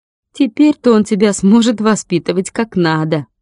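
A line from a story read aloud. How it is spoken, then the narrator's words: Snide. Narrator (Russian): Ника ехидно сказала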